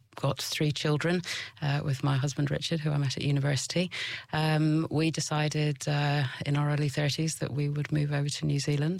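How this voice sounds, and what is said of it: British accent. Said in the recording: “I'm from the UK, which you can probably hear from my accent”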